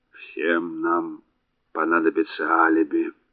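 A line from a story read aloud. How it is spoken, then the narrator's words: Muttered. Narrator (Russian): пробормотал Реймор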